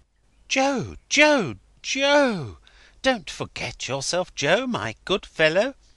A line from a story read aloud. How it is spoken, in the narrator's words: Crisparkle interposed, remonstrating aside in a friendly voice